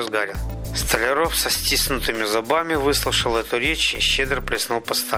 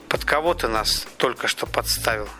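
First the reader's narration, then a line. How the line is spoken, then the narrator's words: Plain. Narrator (Russian): спросил он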